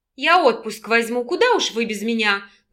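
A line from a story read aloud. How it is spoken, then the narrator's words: Irritated grumble. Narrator (Russian): пробурчала Наталья, желая чем-нибудь треснуть Сонарову по голове, чувствуя с каждой минутой сильнее, что он ее необычайно раздражает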